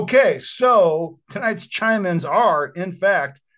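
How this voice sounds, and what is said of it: Usual voice. Nothing is said of it.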